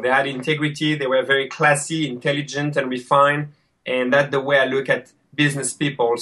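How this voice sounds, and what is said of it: French accent. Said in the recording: “I'm loving ... French accent”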